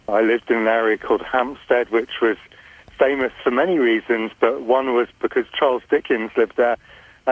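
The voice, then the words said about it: English accent, from London. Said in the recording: “As you can probably tell from my accent, I was originally brought up in England, in London.”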